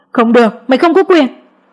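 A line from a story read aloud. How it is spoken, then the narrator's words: Frantic desperate shout. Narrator (Vietnamese): Mẹ chồng tôi hét lên như bà ai cướp đi kho báu của mình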